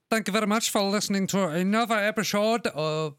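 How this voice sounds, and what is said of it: Random mixed put-on accent. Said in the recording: “I don't know what accent that was. That was cool. ... turned into some random accent man. ... Every accent man. ... Every accent all right. Man, all at once.”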